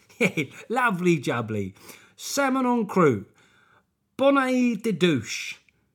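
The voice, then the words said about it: Del Boy character voice. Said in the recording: “do a Del Boy voice”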